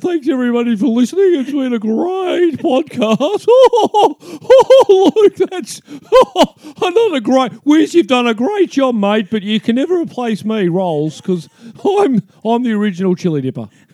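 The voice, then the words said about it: Impression of a co-host's voice. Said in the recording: “Sounds exactly like. ... He's been doing that voice all friggin' days.”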